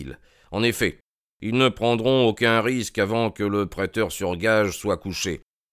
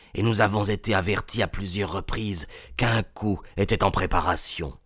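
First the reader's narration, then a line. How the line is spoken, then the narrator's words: Whispered. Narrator (French): chuchota le président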